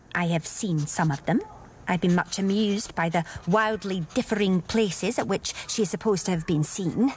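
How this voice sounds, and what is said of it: Put-on Scottish accent. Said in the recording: “Scottish accent? ... She's fabulous.”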